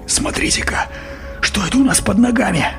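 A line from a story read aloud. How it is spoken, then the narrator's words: Soft cry, then whisper. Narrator (Russian): Берти тихо вскрикнул и прошептал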